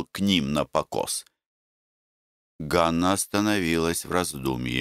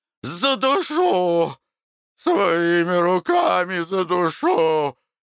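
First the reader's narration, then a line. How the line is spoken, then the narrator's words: Exhausted hoarse female rasp. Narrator (Russian): хрипела Ганна из последних сил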